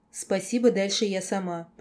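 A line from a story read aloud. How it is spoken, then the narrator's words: Angry mutter. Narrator (Russian): пробормотала скорее зло, чем смущенная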